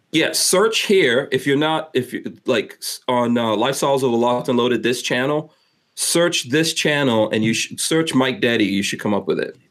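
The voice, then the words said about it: Speaks with a drawl. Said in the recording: “you have like a weird drawl to it... That's my accent.”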